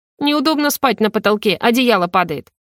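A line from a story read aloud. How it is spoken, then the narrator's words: Grumbling. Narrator (Russian): проворчала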